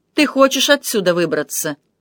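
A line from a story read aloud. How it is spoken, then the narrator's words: Grim smirking tone. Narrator (Russian): Он мрачно усмехнулся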